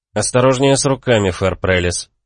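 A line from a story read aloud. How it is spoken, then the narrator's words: Cold reply. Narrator (Russian): холодно ответил я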